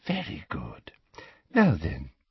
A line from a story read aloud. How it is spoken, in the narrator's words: she whispered